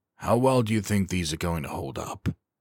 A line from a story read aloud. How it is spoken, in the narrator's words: the pilot asked quietly